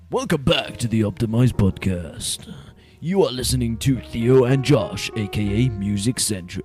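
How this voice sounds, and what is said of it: Put-on radio announcer voice. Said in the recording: “I should do the radio thing ... I've got that radio voice ... That was quite scary in my headphones then.”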